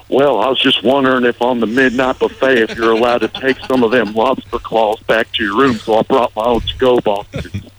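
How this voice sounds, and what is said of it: Imitates another person's voice. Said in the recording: “my imitation of you doing an imitation of your mother-in-law ... She sounds really good”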